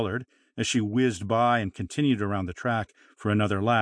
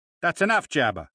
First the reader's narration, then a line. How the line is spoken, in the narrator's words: barked Stormy